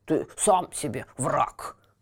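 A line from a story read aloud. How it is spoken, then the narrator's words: Grumbling cat. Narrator (Russian): проворчал кот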